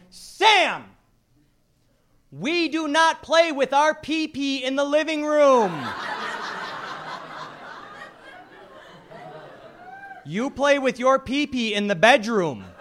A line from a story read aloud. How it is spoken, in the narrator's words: She yelled